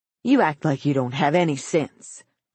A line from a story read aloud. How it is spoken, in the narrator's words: the old man growled